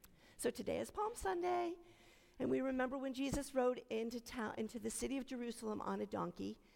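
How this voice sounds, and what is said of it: Hoarse voice, slightly losing it. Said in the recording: “I'm losing my voice a little bit here”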